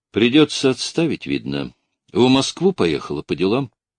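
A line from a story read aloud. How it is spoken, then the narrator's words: Calm. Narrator (Russian): спокойно сказал Бураев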